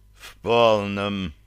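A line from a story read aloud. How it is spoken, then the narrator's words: Groan. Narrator (Russian): простонал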